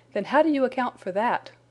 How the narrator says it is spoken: cried Hopkins

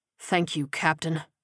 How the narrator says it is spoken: Bretz replied sullenly

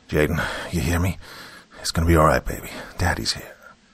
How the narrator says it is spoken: Malcolm whispered down to his son

